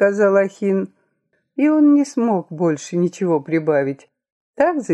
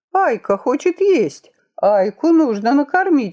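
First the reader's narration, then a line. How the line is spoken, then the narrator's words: Young man exclaiming. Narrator (Russian): воскликнул юноша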